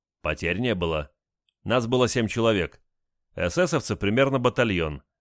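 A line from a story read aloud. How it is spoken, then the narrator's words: Calm answer. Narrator (Russian): спокойно ответил Олег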